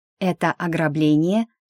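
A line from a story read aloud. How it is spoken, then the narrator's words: Menacing question. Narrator (Russian): грозно спросила я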